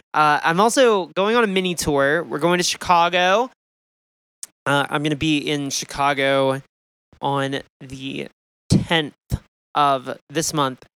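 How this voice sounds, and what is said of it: Strained, worn-out voice. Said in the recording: “my voice sounds a little shitty, it's because I have been screaming into a microphone for a week”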